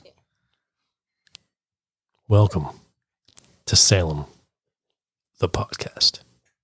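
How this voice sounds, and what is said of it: Slow late-night radio DJ voice. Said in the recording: “my late night DJ voice ... Late night DJ voice ... the best late night DJ vampire”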